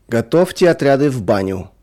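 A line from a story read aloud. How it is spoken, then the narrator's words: Sudden guard's shout. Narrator (Russian): вдруг крикнул кому-то конвоир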